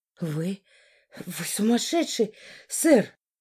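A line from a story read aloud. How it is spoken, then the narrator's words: Breathless exhale. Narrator (Russian): выдохнула я, когда немного отдышалась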